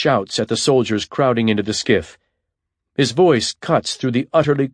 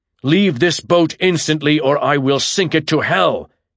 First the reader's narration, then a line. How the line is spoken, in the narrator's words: he roars